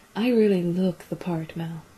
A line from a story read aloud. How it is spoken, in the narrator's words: she said quietly, a little sarcastically